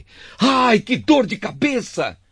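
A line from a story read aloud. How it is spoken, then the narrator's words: Pained shouting. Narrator (Portuguese): De repente, ele começou a gritar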